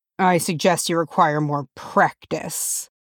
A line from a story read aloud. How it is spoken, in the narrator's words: Thorin growled